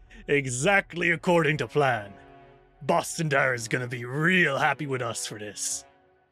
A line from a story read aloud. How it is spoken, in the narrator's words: Diki Sonam chuckles and says